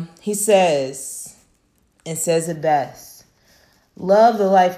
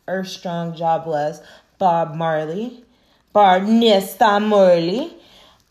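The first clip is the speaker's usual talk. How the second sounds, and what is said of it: Attempted Jamaican accent. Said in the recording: “I didn't say that right, but that's my best Jamaican accent”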